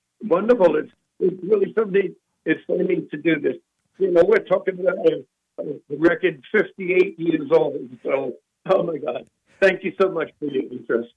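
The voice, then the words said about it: Slight Brooklyn accent. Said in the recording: “I'm detecting a little bit of an accent ... I am born and raised in Brooklyn ... quintessentially Brooklyn”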